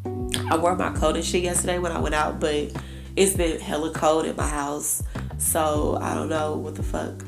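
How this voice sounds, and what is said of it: Hoarse voice. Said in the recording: “my voice is so hoarse,”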